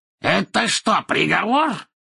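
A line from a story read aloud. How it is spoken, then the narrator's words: Angry, raised voice. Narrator (Russian): спросил Мракс, злобно повысив голос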